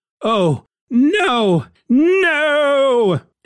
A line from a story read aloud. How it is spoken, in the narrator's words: Reed finds this rather alarming, and we end the issue with Reed shouting out